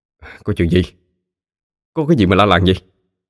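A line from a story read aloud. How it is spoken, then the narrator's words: Irritated snap. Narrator (Vietnamese): chú liền gắt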